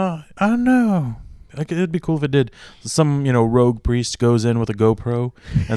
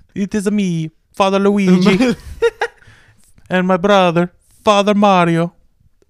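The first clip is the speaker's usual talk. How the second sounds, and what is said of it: Stereotypical Italian accent. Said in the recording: “the most stereotypical Italian accent.”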